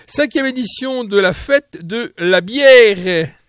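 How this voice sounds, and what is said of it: Put-on German accent. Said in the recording (French): “je le dis avec l'accent allemand ... Avec l'accent allemand.”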